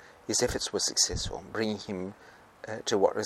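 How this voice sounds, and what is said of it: Usual voice. Nothing is said of it.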